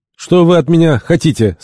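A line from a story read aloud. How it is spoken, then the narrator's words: Irritated question. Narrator (Russian): спросил он раздраженно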